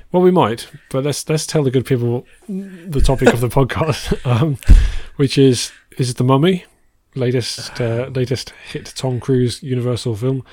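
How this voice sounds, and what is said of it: Hoarse, strained voice. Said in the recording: “my voice is going a little bit ... Yeah, I can hear that. ... Is the sun giving you a hoarse throat?”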